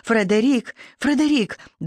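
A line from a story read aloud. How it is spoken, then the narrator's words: Desperate cry. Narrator (Russian): в отчаянии воскликнула я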